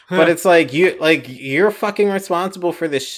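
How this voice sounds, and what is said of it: Usual voice. Nothing is said of it.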